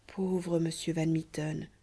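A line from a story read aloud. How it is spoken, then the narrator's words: Young woman's murmur. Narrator (French): murmurait alors la jeune Amasia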